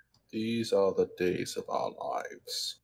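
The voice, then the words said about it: Morgan Freeman impression. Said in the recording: “you said it in like Morgan Freeman accent.”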